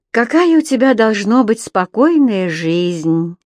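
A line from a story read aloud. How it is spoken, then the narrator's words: Sighing. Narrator (Russian): вздохнула Энсли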